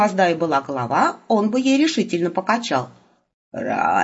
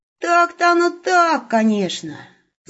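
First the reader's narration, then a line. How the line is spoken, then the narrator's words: Sigh. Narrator (Russian): вздохнул Серый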